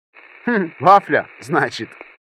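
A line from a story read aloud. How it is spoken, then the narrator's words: Chuckling, customer. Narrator (Russian): хохотнул заказчик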